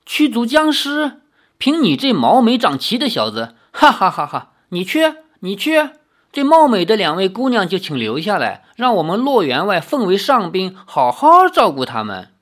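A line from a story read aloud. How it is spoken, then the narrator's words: Loud mocking laughter. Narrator (Chinese): 那总管哈哈大笑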